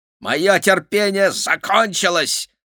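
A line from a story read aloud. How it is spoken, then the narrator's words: Growled. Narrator (Russian): прорычал Гавинт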